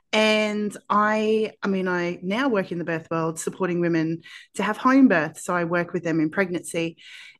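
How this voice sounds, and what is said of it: Australian accent. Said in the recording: “I am from Australia, if you can't tell from my accent.”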